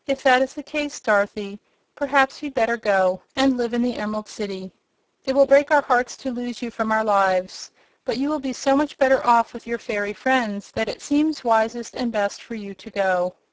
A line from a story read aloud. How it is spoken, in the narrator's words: Aunt Em said with another sigh of regret